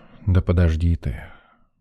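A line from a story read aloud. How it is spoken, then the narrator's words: Sighing. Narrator (Russian): вздохнул доктор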